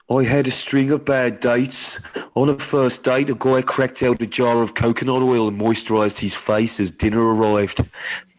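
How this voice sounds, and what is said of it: Put-on Birmingham accent. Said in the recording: “you got to do the accent. I think she's from Birmingham ... That's really good”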